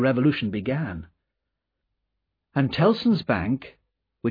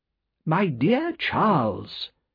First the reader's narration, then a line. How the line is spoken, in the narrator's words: said the banker